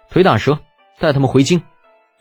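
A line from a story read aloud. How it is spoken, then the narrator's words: Flat, indifferent order. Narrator (Chinese): 李浩淡淡的吩咐道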